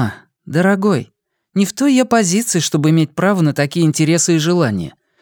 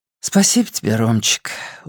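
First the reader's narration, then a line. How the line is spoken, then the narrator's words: Tired. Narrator (Russian): устало сказала Настя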